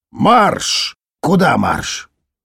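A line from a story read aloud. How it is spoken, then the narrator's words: Displeased muttering. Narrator (Russian): Недовольно бурчал Шорл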